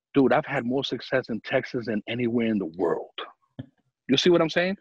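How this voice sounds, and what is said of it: New York accent. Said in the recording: “you have a New York accent”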